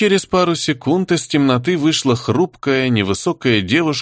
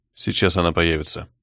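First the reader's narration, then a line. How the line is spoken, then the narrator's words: Muttered. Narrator (Russian): пробормотал Кортес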